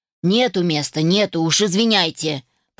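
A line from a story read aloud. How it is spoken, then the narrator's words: Muttered. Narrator (Russian): пробурчал мужчина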